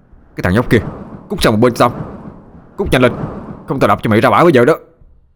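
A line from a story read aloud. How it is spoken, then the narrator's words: Loud shout. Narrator (Vietnamese): Khang hét to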